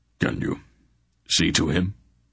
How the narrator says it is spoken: Brand asked Ariana hoarsely

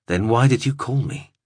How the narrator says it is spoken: spoke fast and flatly, words that she had already prepared

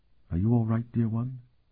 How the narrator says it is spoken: she whispered

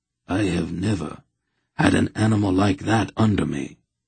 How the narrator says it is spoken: Hedhar said quietly

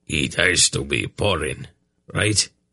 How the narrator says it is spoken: Anheg grumbled

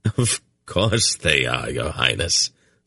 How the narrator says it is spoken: Silk laughed again

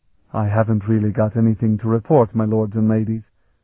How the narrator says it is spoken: he mumbled

